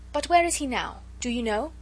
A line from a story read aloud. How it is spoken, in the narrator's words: she asked eagerly